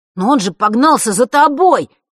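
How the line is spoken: Desperate wail. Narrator (Russian): в отчаянии взвыл Ник

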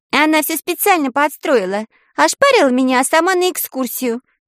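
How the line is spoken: Squeaky voice. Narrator (Russian): пискнула она

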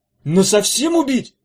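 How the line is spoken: Yelling. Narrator (Russian): заорал Эдя

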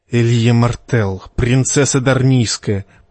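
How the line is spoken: Red serpent hissing. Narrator (Russian): прошипел красный змей

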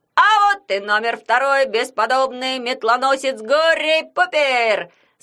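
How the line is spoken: Fairground barker yell. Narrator (Russian): С интонацией балаганного зазывала завопил Ягун

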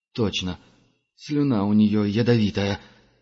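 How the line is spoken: Forced out. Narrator (Russian): выдавил Герман

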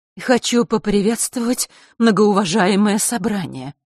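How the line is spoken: Trembling woman's voice. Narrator (Russian): начала часовщица задрожавшим голосом

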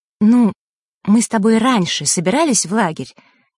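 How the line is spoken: Excited sigh. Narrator (Russian): Василиса взволнованно вздохнула

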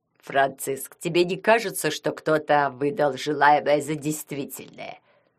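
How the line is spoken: Mocking question from bushes. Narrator (Russian): Глумливым голосом спросил из кустарника Вацлав

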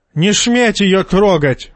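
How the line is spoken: Spluttering goat yelling. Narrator (Russian): вопил козел, брызгая слюной

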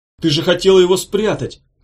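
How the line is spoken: Shout. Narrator (Russian): крикнул он Ирке

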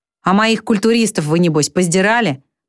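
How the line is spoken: Sudden abrupt question. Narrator (Russian): вдруг спрашивает он, резко меняя тему

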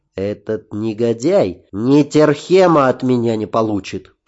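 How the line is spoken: Hissed. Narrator (Russian): прошипел я

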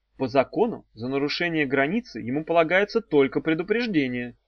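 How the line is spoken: Uncertain. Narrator (Russian): неуверенно сказала Дафна

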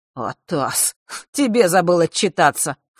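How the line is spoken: Snorting. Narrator (Russian): фыркнул он

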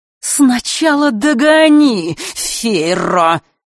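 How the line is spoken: Sudden hiss. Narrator (Russian): вдруг прошипела она

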